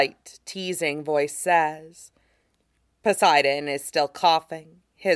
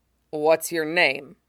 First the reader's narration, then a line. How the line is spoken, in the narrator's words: he asks